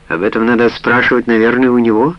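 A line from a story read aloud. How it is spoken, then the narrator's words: Plain. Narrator (Russian): ответила Сара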